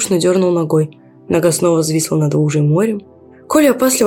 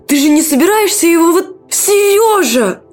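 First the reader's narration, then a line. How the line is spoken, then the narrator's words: Young woman shouting. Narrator (Russian): закричала девушка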